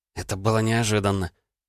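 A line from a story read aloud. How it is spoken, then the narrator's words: Muttering. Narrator (Russian): пробормотала Лена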